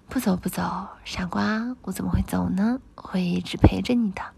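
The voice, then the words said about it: Gentle, tender soft voice. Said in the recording (Chinese): “能用温柔的声音说后面的话吗？”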